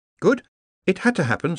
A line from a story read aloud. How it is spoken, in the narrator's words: said Ponder